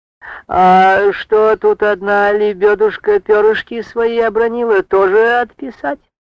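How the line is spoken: Ingratiating voice. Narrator (Russian): Вкрадчивым голосом заговорила Варвара

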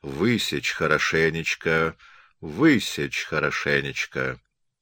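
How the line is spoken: Soft, fading, tender whisper. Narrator (Russian): повторял много раз тихим, замирающим, как будто ласковым шепотом

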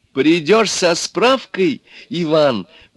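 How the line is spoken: Agitated. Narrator (Russian): взволнованно сказала Лиза

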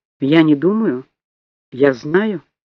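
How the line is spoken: Firm voice. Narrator (Russian): твердым голосом сказала Тишерт

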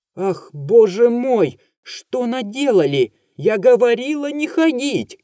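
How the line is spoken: Shouting. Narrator (Russian): кричала Варвара Алексеевна

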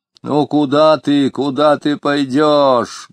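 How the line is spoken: Deep bass voice. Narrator (Russian): говорила Анфимьевна почему-то басом

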